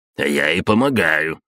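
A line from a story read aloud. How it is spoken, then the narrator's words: Indignant. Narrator (Russian): возмущенно Булатов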